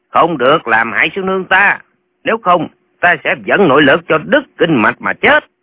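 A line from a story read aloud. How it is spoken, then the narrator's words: Urgent loud shout. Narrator (Vietnamese): Lệnh Hồ Xuân đang nằm trên giá, thấy sư nương lâm vào tình thế nguy hiểm, hắn vội nhổm dậy quát to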